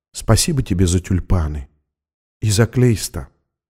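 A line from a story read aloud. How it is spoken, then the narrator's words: Whisper. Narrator (Russian): прошептала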